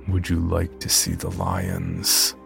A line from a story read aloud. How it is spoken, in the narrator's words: in a throaty, guttural tone